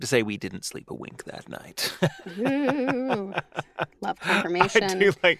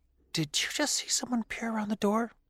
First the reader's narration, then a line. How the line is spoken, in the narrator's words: my mom whispering to me